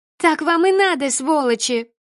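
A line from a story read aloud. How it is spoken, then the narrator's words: Angry high girl's shout. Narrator (Russian): Гневно кричал высокий девичий голос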